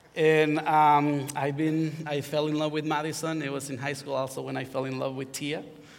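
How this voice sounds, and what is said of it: Honduran Spanish accent in English. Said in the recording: “as you can hear, I have an accent. So I am from Honduras.”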